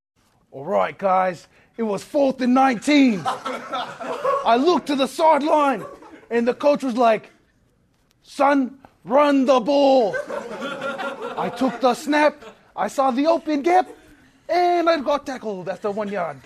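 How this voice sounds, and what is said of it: Bad Australian-accented impersonation. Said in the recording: “impersonation ... Oh, terrible. Tragic. Yeah. Australian. That's embarrassing.”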